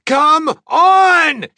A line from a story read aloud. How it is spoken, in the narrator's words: She yelled impatiently